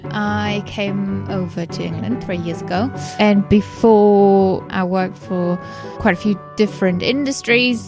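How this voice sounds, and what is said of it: German accent. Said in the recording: “as you might have guessed from my accent, I'm German”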